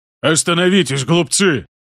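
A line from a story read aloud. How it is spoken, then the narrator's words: Booming bark. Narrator (Russian): гулко рявкнул лорд Аберин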